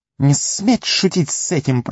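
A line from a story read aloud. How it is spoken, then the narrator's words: Hiss. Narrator (Russian): прошипел Горлум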